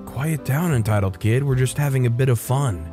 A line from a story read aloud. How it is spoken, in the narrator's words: whisper